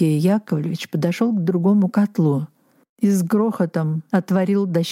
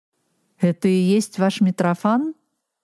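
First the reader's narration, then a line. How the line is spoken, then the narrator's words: Plain. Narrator (Russian): сказал Мышецкий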